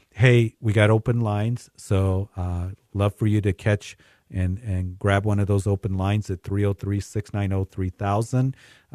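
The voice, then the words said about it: Hoarse voice. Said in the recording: “I sound a little hoarse, because I am a little hoarse, I've been fighting a cold”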